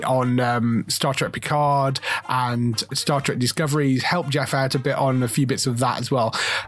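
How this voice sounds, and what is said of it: Croaky, strained voice. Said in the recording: “my voice was giving out on me, so I'm a little bit croaky ... you will hear my quite croaky voice”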